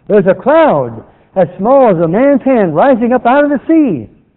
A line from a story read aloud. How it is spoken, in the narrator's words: the servant returned with a shout